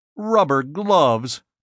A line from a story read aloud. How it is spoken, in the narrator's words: Cort snorted